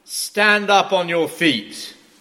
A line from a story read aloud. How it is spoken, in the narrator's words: called out